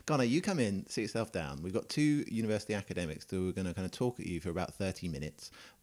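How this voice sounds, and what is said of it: British accent. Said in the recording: “are you British? ... I am British, yes. ... I love your accent.”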